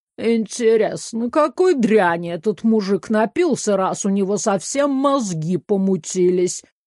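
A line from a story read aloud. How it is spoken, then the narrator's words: Staid man grumbling nearby. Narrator (Russian): проворчал неподалеку степенный мужчина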